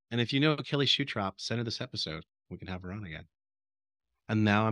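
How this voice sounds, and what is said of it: Usual voice. Nothing is said of it.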